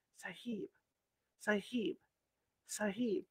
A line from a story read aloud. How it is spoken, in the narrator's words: someone was calling to me in a whisper